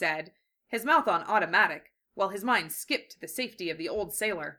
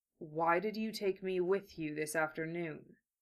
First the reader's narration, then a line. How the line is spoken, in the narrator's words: He asked, in a soft, dangerous tone